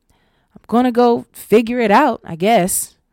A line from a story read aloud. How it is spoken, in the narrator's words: Roe shouted over her shoulder